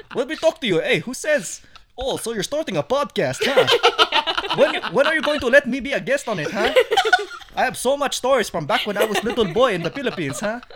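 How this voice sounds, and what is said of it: Put-on Filipino uncle accent. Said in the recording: “accent where it's a whitewashed Filipino kind of. Okay. So it's a Filipino trying to hide his accent ... it sounds like a Filipino Elvis ... That's how like old uncles sound, like that came straight from the Philippines.”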